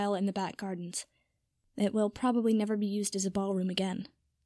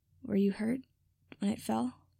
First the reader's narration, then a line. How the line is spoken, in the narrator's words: he asked quietly